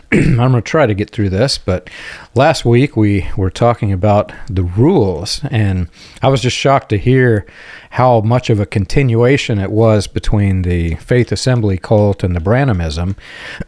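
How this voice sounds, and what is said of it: Slightly hoarse voice. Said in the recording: “my allergies are making my voice a little hoarse today”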